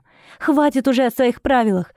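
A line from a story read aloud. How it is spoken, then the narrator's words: Tearful exclamation. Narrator (Russian): воскликнула она, размазывая слезы по щекам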